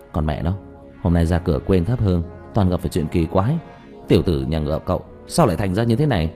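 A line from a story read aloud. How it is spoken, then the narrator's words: Muttering. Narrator (Vietnamese): Diệp Thiếu Dương lẩm bẩm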